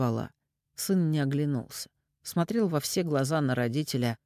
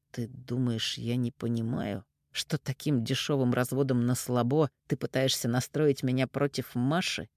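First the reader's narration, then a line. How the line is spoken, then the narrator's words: Through gritted teeth. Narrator (Russian): процедил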